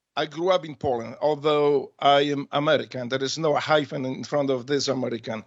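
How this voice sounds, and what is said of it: Fluent English with Polish accent. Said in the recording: “You've got an accent, obviously, but you speak English perfectly. You're from Poland, yes?”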